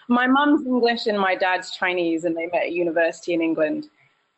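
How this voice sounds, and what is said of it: British accent. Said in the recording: “a very British accent”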